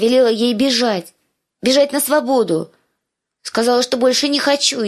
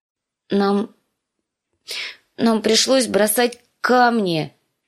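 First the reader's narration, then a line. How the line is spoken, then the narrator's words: Unhappy voice. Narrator (Russian): сказала Ария несчастным голосом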